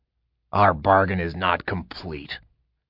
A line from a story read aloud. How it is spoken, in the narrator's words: he growled